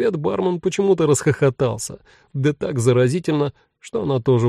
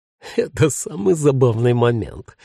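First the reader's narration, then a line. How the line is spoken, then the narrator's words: Mumbled through laughter. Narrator (Russian): сквозь смех пробормотал он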